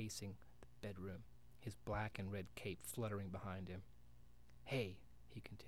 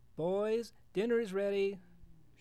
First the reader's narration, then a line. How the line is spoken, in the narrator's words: shouted Mrs